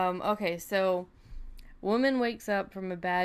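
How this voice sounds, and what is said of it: Usual voice. Nothing is said of it.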